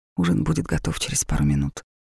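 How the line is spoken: Soft quiet statement. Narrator (Russian): тихо сказала

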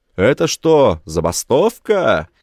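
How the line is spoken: Shouting. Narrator (Russian): кричал Гроган

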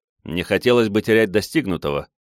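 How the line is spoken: Snort. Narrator (Russian): хмыкнул я

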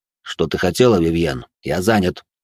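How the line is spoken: Cold. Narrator (Russian): холодно произнес он

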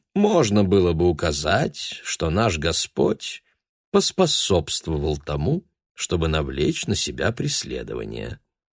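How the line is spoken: Mild, relaxed tone. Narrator (Russian): сказал он мягким послеобеденным тоном

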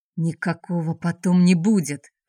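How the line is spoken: Hissing. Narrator (Russian): прошипел Араторн

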